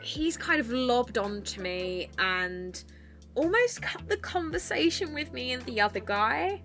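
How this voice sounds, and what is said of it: Essex accent with northern touches. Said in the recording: “my accent, mind you, I've got, you know, I've lived up north for a while now, so I've got a bit of northern dialect in there thrown in, I guess. But I am from Essex”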